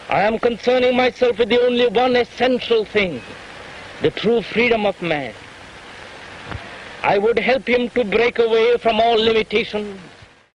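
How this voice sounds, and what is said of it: Clipped old-fashioned Indian English accent. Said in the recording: “Krishnamurti's accent ... That clipped, old-fashioned accent ... older Indian men ... who'd been taught English by British teachers in the last days of the Raj”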